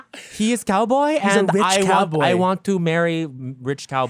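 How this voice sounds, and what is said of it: Unclear put-on foreign accent. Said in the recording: “What accent is that? ... I don't know. ... Montreal.”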